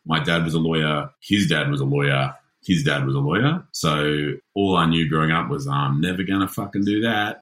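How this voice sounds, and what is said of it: Posh private-school Australian accent. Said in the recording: “the ugly private school accent”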